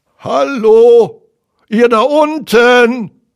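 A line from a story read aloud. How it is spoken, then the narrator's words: Call from above. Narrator (German): rief eine Stimme von oben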